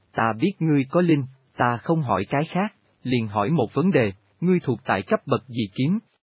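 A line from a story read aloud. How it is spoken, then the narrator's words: Smiling. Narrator (Vietnamese): nàng mỉm cười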